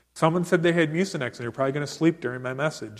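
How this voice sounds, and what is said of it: Loud, yelling preaching voice. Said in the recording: “I'm very sick. ... I got allergies. ... That's why I'm yelling!”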